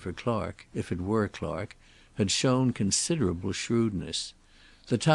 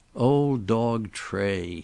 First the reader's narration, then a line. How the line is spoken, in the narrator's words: he said sneeringly